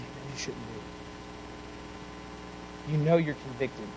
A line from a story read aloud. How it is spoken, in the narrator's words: little whisper in the back of his head that says